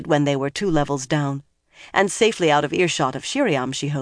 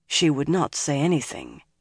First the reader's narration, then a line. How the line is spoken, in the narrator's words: Nynaeve muttered